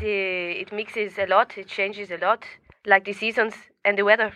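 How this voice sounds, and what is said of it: Blended French-tinged foreign accent. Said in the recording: “That's a beautiful accent ... It is a blended accent ... you can hear the French ... It's kind of like a Scots Gaelic kind of”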